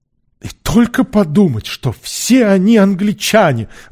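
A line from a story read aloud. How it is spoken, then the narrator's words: Exclamation. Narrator (Russian): воскликнул Сквайр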